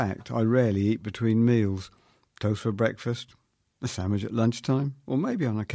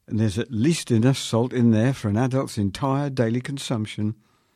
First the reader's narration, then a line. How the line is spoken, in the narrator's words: exclaimed